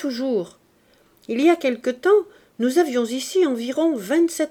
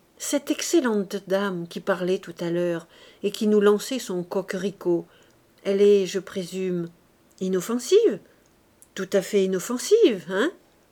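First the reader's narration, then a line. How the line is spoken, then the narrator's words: Low voice. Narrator (French): lui parlant à voix basse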